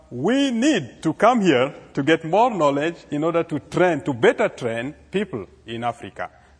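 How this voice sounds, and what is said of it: African accent. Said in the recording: “as you can feel it through my accent, we were born and raised in Africa”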